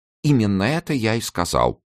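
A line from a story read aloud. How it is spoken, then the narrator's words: Timid interjection. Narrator (Russian): робко вставил Чамберс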